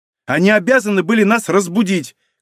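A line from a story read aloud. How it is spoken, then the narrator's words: Shouted. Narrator (Russian): крикнула Варя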